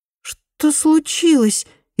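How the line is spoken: Frightened question. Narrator (Russian): испуганно спросила Инга

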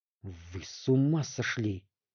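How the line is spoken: Angry hiss. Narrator (Russian): зашипел на него Ступичев

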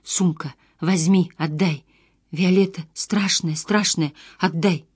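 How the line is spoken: Wheezing, frothing woman. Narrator (Russian): Женщина захрипела, изо рта потекла пена

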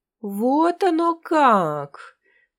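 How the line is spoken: Drawling. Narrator (Russian): протянул Моцарт

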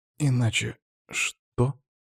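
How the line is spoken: Quiet question. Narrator (Russian): тихо спросил Артур

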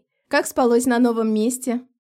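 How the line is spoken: Cheerful loud question. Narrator (Russian): бодро спросил стараясь говорить громко

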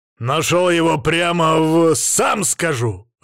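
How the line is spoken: Growled. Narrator (Russian): рыкнул я ему в морду

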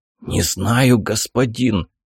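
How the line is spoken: Whispered reply. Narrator (Russian): шепотом ответил тот

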